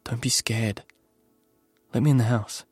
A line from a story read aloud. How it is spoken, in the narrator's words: I whispered